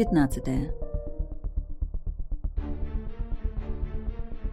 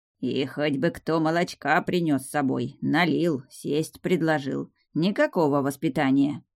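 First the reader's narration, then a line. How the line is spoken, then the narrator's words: Grumble. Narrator (Russian): пробурчал Смир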